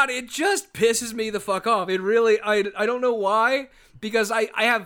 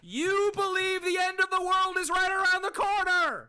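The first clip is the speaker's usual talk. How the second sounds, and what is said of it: Yelling loudly. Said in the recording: “that's going to fuck up some headphones ... Yes, I'm yelling.”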